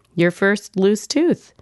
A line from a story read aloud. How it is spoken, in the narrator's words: we say, yawning disbelievers all